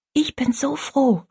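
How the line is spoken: Whispered. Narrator (German): flüsterte Rosalie

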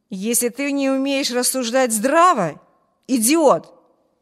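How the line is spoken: Furious exclamation. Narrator (Russian): яростно воскликнул Брюс

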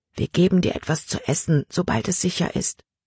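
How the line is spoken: Whispered. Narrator (German): flüsterte Samuel ihm zu

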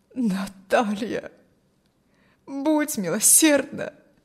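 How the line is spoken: Moan. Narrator (Russian): простонал

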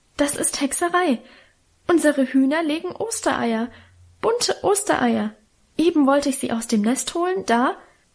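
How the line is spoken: Stammering. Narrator (German): stammelte sie

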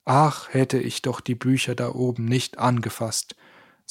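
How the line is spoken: Plain. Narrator (German): sagte Stefan

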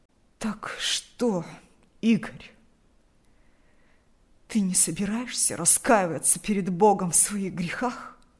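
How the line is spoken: Hoarse agitated father. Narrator (Russian): От волнения голос отца хрипел

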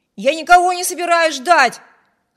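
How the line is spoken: Shouting. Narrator (Russian): крикнул Виберт

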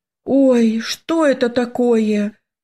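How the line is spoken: Tearful exclamation. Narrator (Russian): воскликнула я, едва сдерживая слезы

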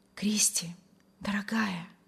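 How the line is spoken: Delighted whisper. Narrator (Russian): восторженно шептал Вильям

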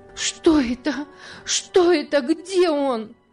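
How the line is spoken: Frantic shouting. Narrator (Russian): закричала она вне себя

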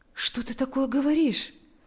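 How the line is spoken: Comforting tone. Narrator (Russian): произнес Павел утешающим тоном

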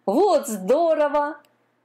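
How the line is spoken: Sea horse laughing. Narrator (Russian): засмеялся морской конек

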